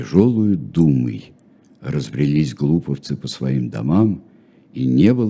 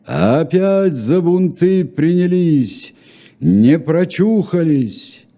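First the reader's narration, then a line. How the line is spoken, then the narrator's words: Shouting in a strange voice. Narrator (Russian): бригадир не своим голосом закричал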